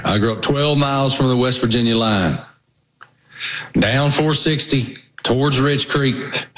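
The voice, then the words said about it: Southwest Virginia accent. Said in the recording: “you got a funny accent... I grew up in Southwest Virginia”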